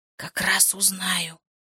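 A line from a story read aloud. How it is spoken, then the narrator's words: Whispered. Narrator (Russian): шепнул Феликс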